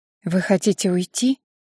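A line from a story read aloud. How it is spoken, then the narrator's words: Unusually quiet voice. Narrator (Russian): Таким тихим голос Доминики еще никогда не был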